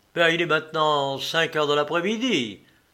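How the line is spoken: Exclaimed. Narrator (French): s'écria Paulin Broquet

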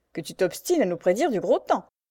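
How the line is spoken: Army doctor sneering. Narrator (French): ricana le médecin-major

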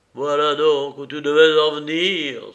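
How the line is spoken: Bitter exclamation. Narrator (French): s'écria avec amertume

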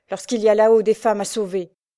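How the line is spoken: Shouted. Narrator (French): criait-il

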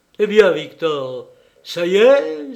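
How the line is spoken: Joyful exclamation. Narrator (French): s'écria-t-il joyeusement

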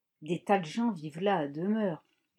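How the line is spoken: Whisper. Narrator (French): lui chuchota Libby

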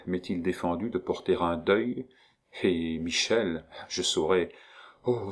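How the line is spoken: Murmuring. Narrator (French): murmura

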